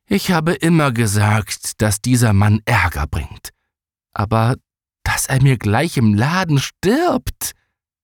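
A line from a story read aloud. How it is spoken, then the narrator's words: Sigh. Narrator (German): seufzte sie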